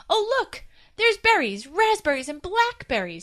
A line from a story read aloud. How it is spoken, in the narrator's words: squealed